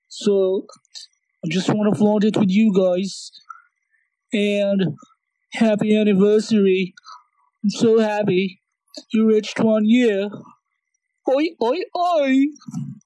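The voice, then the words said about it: Put-on Australian accent. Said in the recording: “he has adopted a new persona ... This is my original Aussie accent.”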